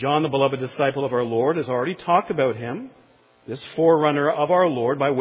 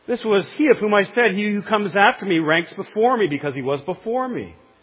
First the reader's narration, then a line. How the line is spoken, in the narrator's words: cried out